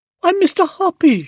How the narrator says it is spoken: she cried

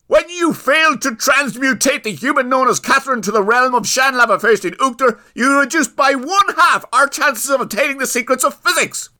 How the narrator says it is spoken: yelled Owen

